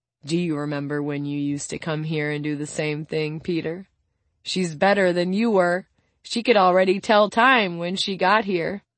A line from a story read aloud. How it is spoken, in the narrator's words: Suna informs him happily